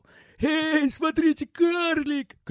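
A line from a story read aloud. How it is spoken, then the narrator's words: Shout. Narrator (Russian): крикнул какой-то парень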